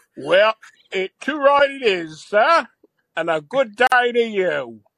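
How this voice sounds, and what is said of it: Exaggerated fake British Cockney accent. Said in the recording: “that's a very authentic accent you got there, Mr. Van Dyke. Are you British?”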